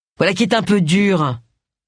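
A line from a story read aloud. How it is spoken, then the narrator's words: Grumbling. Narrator (French): grogna-t-il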